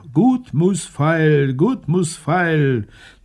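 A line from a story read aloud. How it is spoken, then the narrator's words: Call. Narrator (German): eine Bauersfrau rief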